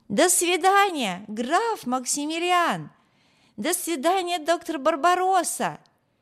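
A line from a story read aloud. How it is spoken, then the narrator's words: Shouted after them. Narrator (Russian): Барти крикнул им вслед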